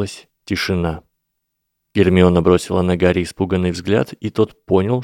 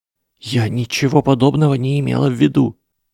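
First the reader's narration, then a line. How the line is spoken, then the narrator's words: Frightened whisper. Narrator (Russian): испуганным шепотом выдавила Гермиона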